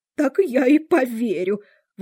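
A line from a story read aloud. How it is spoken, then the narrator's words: Exclamation. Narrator (Russian): воскликнула голубка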